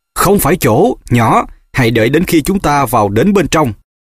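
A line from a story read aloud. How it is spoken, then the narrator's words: Harsh snap. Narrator (Vietnamese): Thầy Moody đã nạt ác nó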